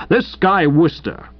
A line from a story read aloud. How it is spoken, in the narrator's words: bellowed a voice that had been strengthened by a lifetime of ticking actors off at dress rehearsals from the back of the theatre